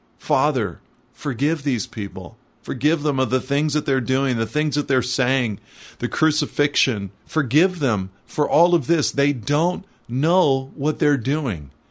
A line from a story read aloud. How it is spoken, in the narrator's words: As they crucified him, he cries out